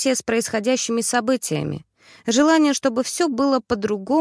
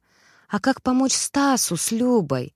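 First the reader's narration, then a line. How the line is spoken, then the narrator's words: Heavy sigh. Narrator (Russian): Я тяжело вздохнула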